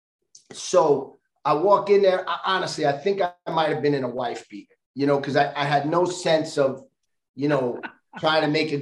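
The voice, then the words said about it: Strong regional accent. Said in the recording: “You think my accent is bad now, it was worse then.”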